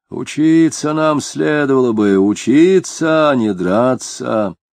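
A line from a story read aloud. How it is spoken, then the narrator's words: Booming bass. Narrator (Russian): гулким басом говорил он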